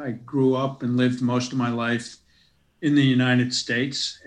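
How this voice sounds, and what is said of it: Non-Australian, American-sounding accent. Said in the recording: “as you can probably tell from my accent, I'm not originally from Australia”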